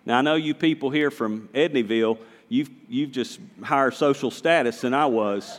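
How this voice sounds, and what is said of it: Southern American accent. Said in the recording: “Now, I'm a Southerner. Did anybody notice that? Anybody notice that I'm Southern? ... you need to clean up your accent a little bit ... this is how we talk in Wahlberg”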